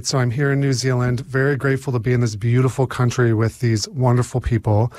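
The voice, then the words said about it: American accent. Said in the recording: “obviously I have an American accent”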